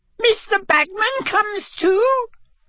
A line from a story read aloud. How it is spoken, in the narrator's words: squeaked Winky